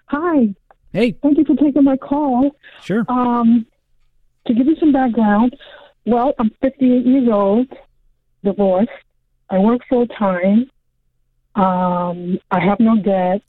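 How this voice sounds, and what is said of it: Muffled voice over the phone. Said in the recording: “You sound a bit muffled.”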